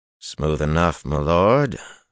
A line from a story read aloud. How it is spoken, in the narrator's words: Harnin replied in a cautious tone